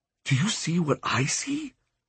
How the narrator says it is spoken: He whispered to me

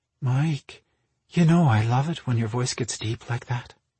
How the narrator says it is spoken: Marina breathed

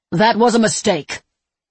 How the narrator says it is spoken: Semper snapped

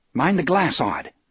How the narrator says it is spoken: Johnny says sharply

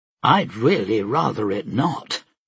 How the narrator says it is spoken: Bert replied coolly

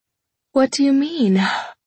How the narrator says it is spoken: stifling a yawn

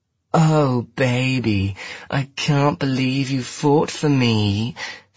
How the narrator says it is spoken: she drawled at him

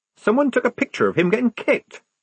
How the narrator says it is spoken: squeaked Polly, drenched in a sudden horror

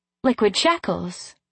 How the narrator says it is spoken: I exclaimed

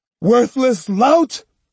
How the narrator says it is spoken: he screamed

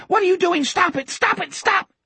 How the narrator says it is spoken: Richard was still shrieking

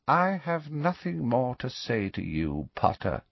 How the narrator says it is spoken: he said quietly

